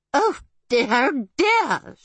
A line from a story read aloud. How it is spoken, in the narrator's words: she gasped